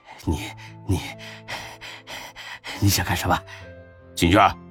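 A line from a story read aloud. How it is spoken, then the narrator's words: Heavy frightened panting. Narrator (Chinese): 刘虎猛一阵粗喘气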